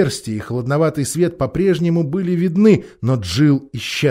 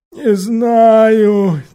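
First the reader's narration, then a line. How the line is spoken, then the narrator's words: Heavy sigh. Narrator (Russian): тяжело вздохнул Квакль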